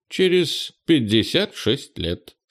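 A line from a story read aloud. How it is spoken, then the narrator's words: Calm man's answer. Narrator (Russian): спокойно ответил мужчина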